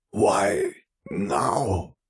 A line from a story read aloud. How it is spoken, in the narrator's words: Vare rasped